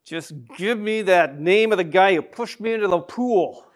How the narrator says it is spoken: the hunk hissed through clenched teeth

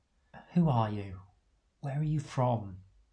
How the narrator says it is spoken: ask gently

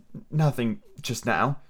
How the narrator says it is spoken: She answered rather sadly

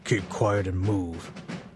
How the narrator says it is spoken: growls in your ear

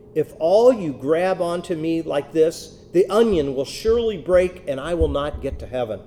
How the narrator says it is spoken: She was also afraid, and so exclaimed in a great shout

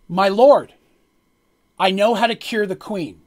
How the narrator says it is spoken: blurts out, screams out very quickly

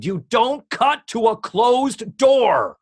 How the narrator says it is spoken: Lorne Michaels he just screamed

